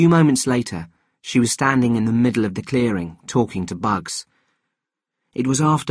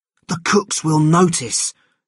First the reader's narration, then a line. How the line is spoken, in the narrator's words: said Keaty nervously